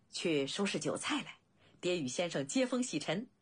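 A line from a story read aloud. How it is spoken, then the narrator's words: Laughing. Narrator (Chinese): 景监笑道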